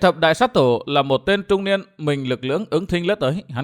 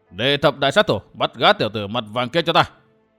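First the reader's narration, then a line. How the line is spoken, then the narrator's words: Angry loud command. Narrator (Vietnamese): Lão hộ pháp nổi giận, quát lớn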